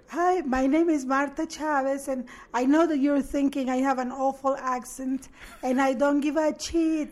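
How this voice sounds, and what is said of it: Shy, timid voice. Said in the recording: “I remember the voice, it was like a... Like this, like very shy.”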